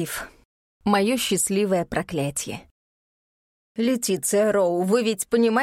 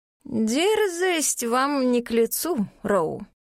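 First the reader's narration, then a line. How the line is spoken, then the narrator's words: Drawling. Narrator (Russian): протянула декан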